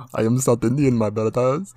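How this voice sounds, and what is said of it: Exaggerated fake Indian accent. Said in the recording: “really like fake ass like Indian accent”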